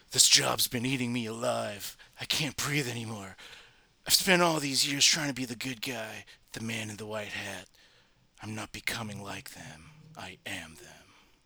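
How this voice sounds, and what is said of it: Bad Batman impression voice. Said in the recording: “the bad Batman impression”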